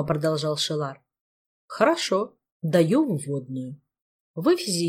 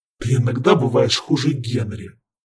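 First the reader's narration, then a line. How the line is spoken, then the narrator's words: Grumbling. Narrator (Russian): проворчал Ханган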